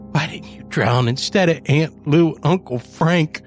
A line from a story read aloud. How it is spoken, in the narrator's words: she growled